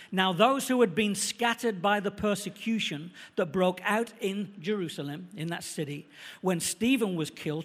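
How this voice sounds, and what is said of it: Manchester accent. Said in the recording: “I've got a Manchester accent”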